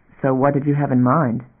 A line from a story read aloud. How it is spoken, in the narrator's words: Damon asked evenly